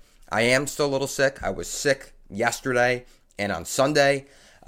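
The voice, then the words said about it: Sick, stuffy congested voice. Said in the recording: “I sound a little sick ... A little cold, okay, stuffy, little tickle on my throat”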